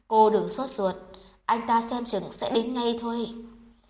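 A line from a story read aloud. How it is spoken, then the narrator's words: Sighing, slow. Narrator (Vietnamese): Chu Bảo Châu thở dài, chậm rãi nói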